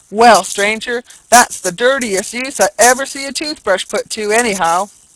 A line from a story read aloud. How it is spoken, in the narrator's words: unable to contain himself, he exclaimed